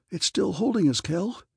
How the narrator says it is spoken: he gasped

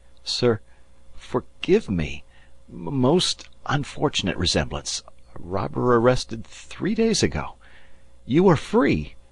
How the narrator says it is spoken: stammered

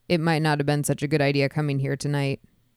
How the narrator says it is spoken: he said

